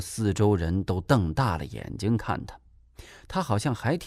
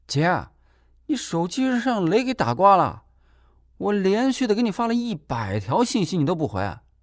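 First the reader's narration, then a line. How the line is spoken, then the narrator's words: Reckless shouting. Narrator (Chinese): 金锁做任何事从来都是无所顾忌的 就敢胡乱地喊叫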